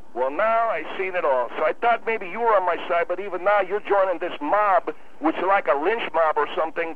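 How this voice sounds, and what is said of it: Strong unplaceable accent. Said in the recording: “You do have an accent, man. ... I never heard an accent like yours anywhere in America. ... That ain't no Chicago accent.”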